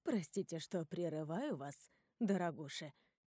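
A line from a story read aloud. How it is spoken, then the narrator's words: Quiet interruption. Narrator (Russian): тихо встревает Анита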